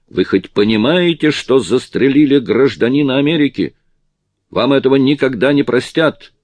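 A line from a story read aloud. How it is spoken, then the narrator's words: Shouting. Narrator (Russian): закричал Чарли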